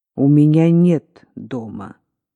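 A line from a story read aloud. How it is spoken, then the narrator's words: Cold. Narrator (Russian): сказала она холодно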